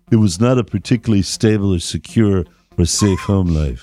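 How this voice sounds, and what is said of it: Johnny Depp impression. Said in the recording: “That's my Johnny Depp impression.”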